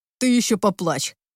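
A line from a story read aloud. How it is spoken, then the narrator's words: Growled. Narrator (Russian): рыкнул Сил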